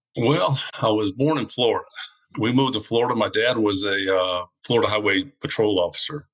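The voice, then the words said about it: Southern American accent. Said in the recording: “Two Southerners to one New Yorker ... you have a very interesting accent”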